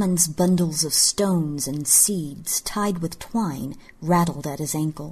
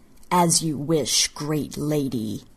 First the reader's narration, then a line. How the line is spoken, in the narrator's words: he sneered